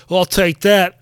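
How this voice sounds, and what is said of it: Bad put-on British accent. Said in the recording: “That was a terrible British accent”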